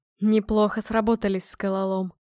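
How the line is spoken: Smirking grunt. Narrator (Russian): хмыкнул дробитель

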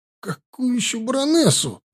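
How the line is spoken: Shriek. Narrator (Russian): взвизгнул Морис

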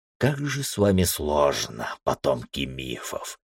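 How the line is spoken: Muttered. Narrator (Russian): пробормотал Джосер

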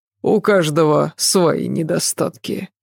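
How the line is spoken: Sigh. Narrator (Russian): вздохнул Адам

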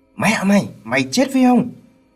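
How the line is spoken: Shouting. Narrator (Vietnamese): Bác hét lên

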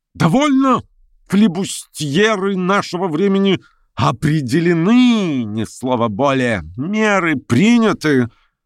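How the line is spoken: Loud energetic declaration. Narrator (Russian): Он проговорил громко на всю комнату, заключил энергически

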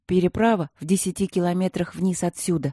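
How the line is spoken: Said in an undertone. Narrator (Russian): вполголоса сказал Симон

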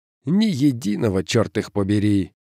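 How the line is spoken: Weary. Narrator (Russian): устало промолвил Соренсон

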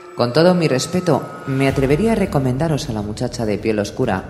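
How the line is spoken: Plain. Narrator (Spanish): dijo Chatalla

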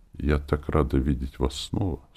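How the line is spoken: Quiet. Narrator (Russian): сказала она тихо

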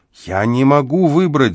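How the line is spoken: Shouting. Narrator (Russian): закричал я

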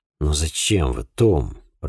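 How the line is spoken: Surprised muttering. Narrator (Russian): пробормотал я, немало удивившись

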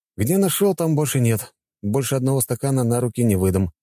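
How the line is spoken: Snorting. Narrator (Russian): хмыкнул я

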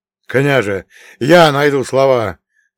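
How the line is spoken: Hopeful wail. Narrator (Russian): взвыл Федотка, и в его глазах мелькнула надежда

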